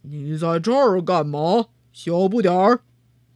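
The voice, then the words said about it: Loud roaring giant voice. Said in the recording (Chinese): “巨人吼道，声音响亮的，仿佛四周在打雷”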